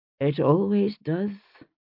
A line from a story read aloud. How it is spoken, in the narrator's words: she said, her voice colourless as the rain